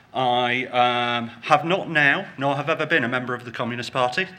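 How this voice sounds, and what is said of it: British accent. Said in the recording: “the very un-American accent ... I'm actually from the UK”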